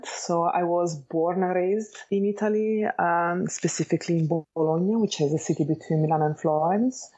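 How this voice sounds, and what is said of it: Italian accent. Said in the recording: “I am Italian, as you can hear from my accent.”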